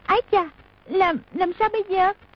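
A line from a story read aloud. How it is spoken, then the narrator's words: Sudden cry. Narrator (Vietnamese): tiểu quận chúa chợt kêu lên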